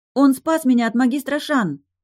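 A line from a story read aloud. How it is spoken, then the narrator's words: Hurried shout. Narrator (Russian): поспешно выкрикнула я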